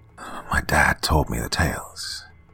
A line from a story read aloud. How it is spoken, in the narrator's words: mutters